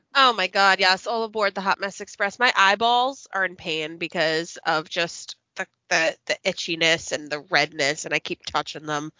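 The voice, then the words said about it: Stuffy, congested voice. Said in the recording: “I am so stuffy. So I am sorry if I sound like a hot mess and I sneeze and I cough”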